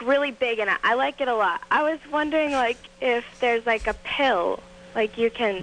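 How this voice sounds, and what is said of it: Boston accent. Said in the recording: “That Bostonian accent is unattractive, though. I got to say. Yeah, it's horrible. ... The Bostonian dialect.”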